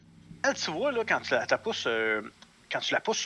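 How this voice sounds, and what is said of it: Usual voice. Nothing is said of it.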